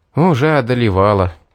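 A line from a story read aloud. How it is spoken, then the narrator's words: Sigh. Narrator (Russian): вздохнул я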